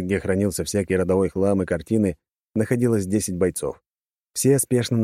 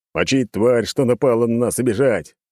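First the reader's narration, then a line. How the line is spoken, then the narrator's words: Shouted. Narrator (Russian): выкрикнул тот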